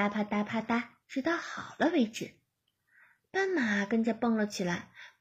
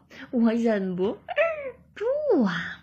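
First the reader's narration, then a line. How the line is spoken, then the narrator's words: Giggling. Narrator (Chinese): 鳄鱼哥咯咯的笑着说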